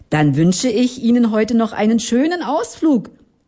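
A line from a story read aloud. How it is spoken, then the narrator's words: Father calling out. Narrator (German): rief der Familienvater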